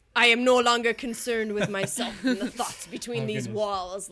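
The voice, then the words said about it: Poetic Spartacus-style character accent. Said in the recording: “you got to do it in their accent ... I want to hear the real Spartacus”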